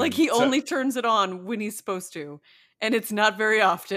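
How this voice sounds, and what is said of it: Usual voice. Nothing is said of it.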